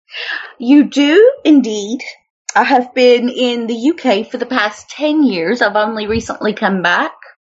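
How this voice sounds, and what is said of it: American with picked-up British accent. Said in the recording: “Do I detect a bit of British? ... You picked up the British accent. You sound like Mary Poppins.”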